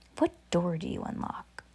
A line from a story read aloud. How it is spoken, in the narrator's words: with a whisper in the air